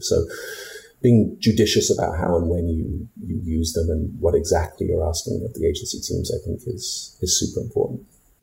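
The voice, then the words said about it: British accent. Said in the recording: “from your accent, but you're from across the pond”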